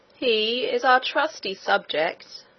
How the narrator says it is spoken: said the king himself, in a slow and stately voice

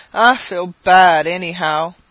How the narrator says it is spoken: with a smothered groan

